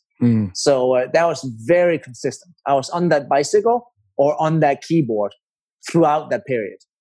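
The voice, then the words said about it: Danish-accented English. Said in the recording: “So I'm Danish. That's where the accent is from.”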